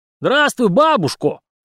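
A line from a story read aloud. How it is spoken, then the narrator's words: Theatrical smiling shout. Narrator (Russian): выкрикнул Алексей, улыбаясь, словно народный артист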